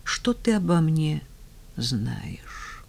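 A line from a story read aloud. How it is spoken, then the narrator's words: Quiet. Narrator (Russian): Ольга тихо сказала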